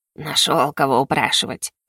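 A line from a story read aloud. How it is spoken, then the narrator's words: Grumbling. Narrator (Russian): проворчала я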